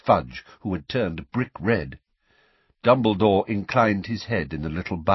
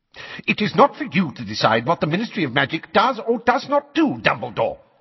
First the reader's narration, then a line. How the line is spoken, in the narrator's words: snapped Fudge, now a shade of magenta